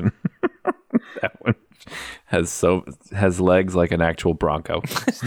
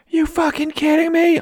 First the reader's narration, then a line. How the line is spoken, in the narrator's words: a woman yelling